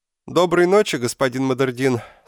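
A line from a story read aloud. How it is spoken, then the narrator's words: Overly loud. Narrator (Russian): сказал он так громко, словно лежал в другой комнате, а не на том же самом матрасе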